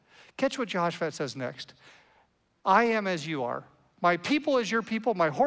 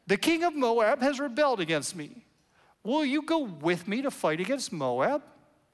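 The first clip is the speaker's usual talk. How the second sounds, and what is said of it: Whiny voice. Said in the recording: “You ought to read this with a whiny voice”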